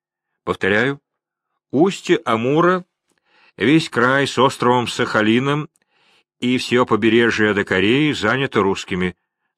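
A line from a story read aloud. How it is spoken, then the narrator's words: Plain. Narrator (Russian): сказал Невельской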